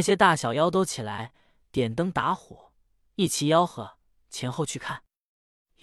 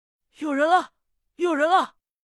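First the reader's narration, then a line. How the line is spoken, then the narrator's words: Startled wild shouting. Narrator (Chinese): 可可的老妖精…一声响把他惊醒，跳起来乱叫道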